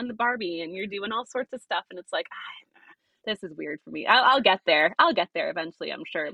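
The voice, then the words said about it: Mild Australian accent. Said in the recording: “You're Australian. ... I am. I was told my accent is watering down.”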